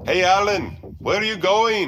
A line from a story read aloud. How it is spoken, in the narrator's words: I heard Kumar yell